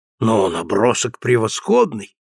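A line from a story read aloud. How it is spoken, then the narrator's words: Exclamation. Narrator (Russian): воскликнул он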